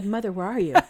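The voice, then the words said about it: Imitates an eerie recorded voice. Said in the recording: “You did a really good... That was a really good impersonation.”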